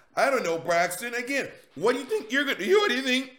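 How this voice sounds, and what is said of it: Voice cracks mid-sentence. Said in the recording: “My voice just cracked.”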